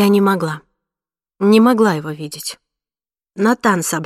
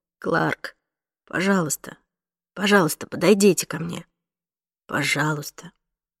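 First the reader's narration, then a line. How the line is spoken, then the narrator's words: Quiet repetition. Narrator (Russian): тихо повторяет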